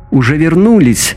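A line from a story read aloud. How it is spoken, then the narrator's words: Cheerful shout. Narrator (Russian): весело закричал Пьер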